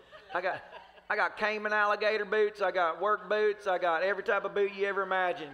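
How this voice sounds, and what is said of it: Put-on country accent. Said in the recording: “You gotta get the country accent going on.”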